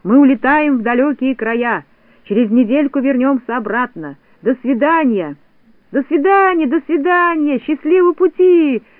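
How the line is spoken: Little people shouting. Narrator (Russian): закричали коротышки

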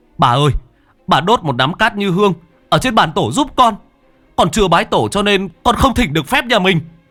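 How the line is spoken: Near-shouting. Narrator (Vietnamese): Cha nói như hét

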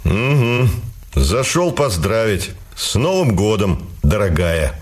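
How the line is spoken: Smirking grunt. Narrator (Russian): хмыкнул он

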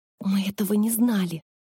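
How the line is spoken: Fervent whisper in ear. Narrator (Russian): горячо зашептала Гели прямо в ухо Виктора

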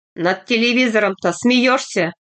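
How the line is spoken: Sharp, angry question. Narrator (Russian): спросил Аристарх Нестерович резко, сердито

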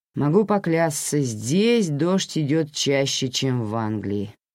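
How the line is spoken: Grumbled. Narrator (Russian): проворчал он

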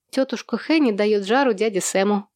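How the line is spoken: Laughing. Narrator (Russian): рассмеялась Эсси

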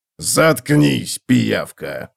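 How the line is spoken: Growled. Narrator (Russian): прорычал Готрек

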